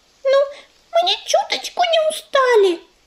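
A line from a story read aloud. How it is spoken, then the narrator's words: Squeaky mouse voice. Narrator (Russian): запищал мышонок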